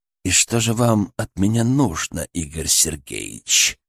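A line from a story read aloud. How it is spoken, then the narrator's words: Through gritted teeth. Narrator (Russian): процедил Бернацкий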